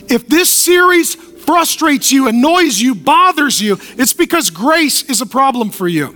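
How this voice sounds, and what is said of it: Yelling loudly. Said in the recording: “I'm yelling not because I'm angry, but because I'm concerned.”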